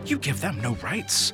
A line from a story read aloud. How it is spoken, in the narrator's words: David snapped